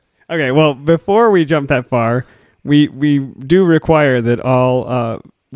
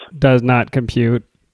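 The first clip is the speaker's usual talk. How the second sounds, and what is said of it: Robot voice. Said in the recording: “That was my robot voice.”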